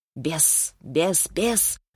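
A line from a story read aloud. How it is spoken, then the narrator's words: Nasty inner whisper. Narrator (Russian): шептал противный голос внутри головы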